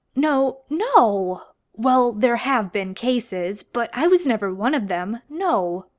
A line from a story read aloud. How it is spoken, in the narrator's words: John stammered